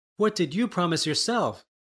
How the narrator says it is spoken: replied Bellissima sadly

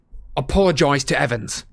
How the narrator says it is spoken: James roared at Snape

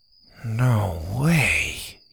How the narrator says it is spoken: he whispered

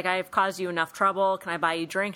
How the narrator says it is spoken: says

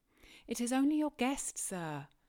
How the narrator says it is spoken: I called out

